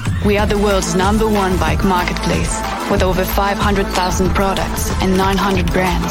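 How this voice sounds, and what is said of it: Woman with possibly Dutch accent. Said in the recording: “she's got me with that accent... Do you reckon she's Dutch? It sounds a bit Dutch, the accent.”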